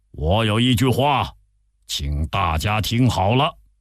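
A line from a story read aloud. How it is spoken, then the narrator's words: Stern, harsh voice. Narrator (Chinese): 董卓……厉声说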